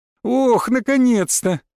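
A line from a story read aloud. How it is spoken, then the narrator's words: Joyful. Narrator (Russian): радостно произнес Осрик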